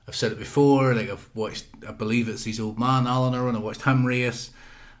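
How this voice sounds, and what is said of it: Speaker's own regional accent. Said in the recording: “You may have guessed by the accent.”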